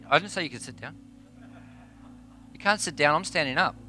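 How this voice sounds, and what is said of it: Mixed Australian and New Zealand accent. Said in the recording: “a Aussie Kiwi mixed accent”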